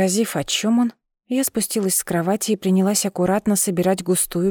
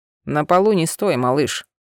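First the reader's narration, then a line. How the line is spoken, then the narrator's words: Grumbling mutter. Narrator (Russian): пробурчал Миранец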